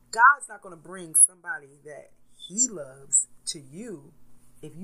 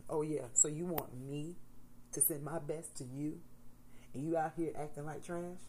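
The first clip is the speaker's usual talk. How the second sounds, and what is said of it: Mock voice of God. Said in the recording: “This is my God impression.”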